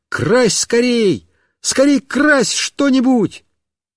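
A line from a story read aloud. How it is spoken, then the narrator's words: Joyful shout. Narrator (Russian): Мишка обрадовался и как закричит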